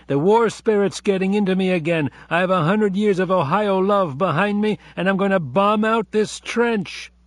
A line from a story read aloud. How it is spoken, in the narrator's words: Abe yelled from the next traverse